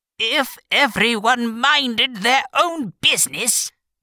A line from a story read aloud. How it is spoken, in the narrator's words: the Duchess said in a hoarse growl